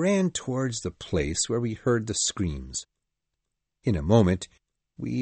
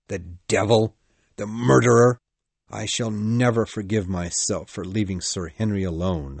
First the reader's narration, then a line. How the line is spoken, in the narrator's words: I cried angrily